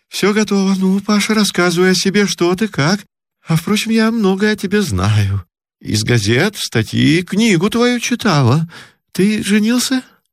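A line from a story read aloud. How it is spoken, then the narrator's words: Hurried question. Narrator (Russian): поспешно спросила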